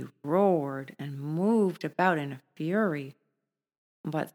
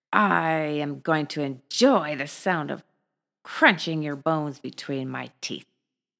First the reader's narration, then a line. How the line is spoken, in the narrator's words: The tiger repeatedly snarled at the cow and roared